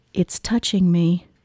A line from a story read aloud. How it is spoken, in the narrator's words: I whispered